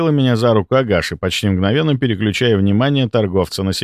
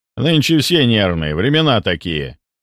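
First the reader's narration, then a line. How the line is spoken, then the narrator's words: Man's short laugh. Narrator (Russian): хохотнул мужчина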